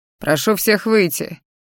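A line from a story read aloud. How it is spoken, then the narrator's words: Deep bass voice. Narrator (Russian): пробасил, как я поняла, лекарь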